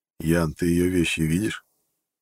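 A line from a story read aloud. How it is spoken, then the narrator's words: Plain. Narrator (Russian): спросил я сослуживца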